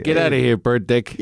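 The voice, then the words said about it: Put-on New York accent. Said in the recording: “My flawless accent there from New York”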